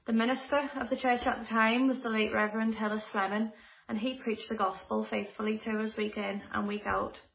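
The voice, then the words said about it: Liverpool English accent. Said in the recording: “As you can probably tell from my accent, I'm not originally from this part of the world, and I come from a small city called Liverpool.”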